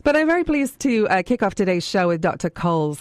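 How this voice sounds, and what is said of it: Hoarse voice that cuts out. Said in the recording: “laryngitis ... My voice has a habit of cutting out on me lately ... my voice is gone”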